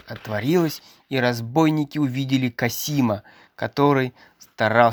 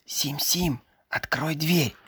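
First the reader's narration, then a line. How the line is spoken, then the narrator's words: Quiet. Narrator (Russian): тихо произнес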